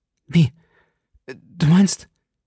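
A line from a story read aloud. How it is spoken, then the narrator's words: Voice choked by sobs. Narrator (German): Seine Stimme ward von einem heftigen Schluchzen erstickt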